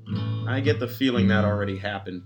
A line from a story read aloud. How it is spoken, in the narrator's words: Peter said in a cold sigh